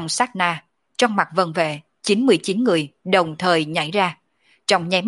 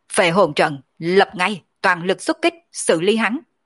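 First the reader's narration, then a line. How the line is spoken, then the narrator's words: Commanding shout. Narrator (Vietnamese): Mộng đại tướng quân mi mắt cũng hạ xuống trực tiếp quát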